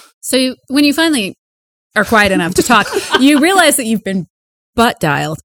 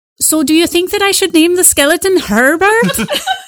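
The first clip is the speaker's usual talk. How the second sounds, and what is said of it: Put-on accent that sounds Irish. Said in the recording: “Still really Irish. ... There are many reasons why I hate that accent. The main one is I can't do it.”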